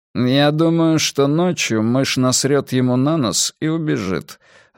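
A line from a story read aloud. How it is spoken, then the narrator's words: Even voice. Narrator (Russian): ровным голосом ответил Перси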